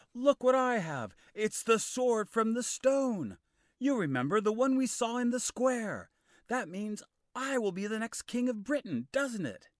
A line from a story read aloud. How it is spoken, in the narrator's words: shouted